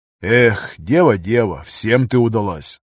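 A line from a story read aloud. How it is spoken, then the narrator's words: Border guard, sighing. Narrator (Russian): вздохнул пограничник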